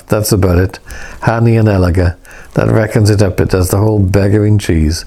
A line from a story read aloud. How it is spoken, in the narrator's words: William laughed